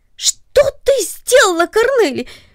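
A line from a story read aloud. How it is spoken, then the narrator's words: Startled cry. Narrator (Russian): вскрикнул он от внезапного удивления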